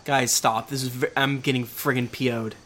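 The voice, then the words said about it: Put-on man's voice. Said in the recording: “He's talking in a man voice. It's horrible.”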